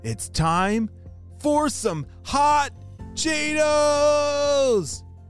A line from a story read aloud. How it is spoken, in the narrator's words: she shouted